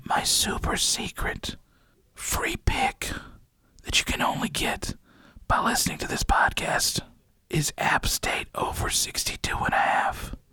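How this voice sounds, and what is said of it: Whispering. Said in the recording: “I'm gonna whisper this”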